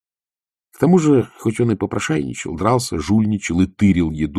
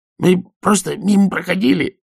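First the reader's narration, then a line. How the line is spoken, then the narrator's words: Stifled cheerful yap. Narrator (Russian): тявкнул он придушенно веселым голосом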